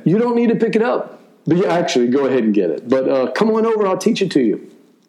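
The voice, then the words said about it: Fast speech, Cajun accent. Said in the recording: “I guess I talk fast. You know, I've got that Cajun accent.”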